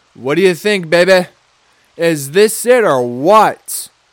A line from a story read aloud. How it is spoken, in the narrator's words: yelled